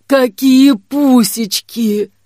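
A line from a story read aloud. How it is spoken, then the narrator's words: Hoarse smoker's voice. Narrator (Russian): проговорила Дамба, голос которой хрипел, как у мужика с 40-летним стажем курильщика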